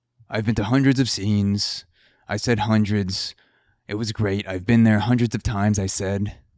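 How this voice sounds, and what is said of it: Terrible Donald Trump impression. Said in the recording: “is my terrible Trump impression, because I can't do one”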